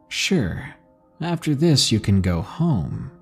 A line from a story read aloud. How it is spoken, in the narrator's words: they said